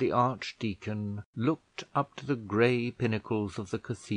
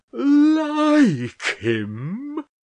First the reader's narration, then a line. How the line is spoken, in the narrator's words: roared the archdeacon, to give more force to his voice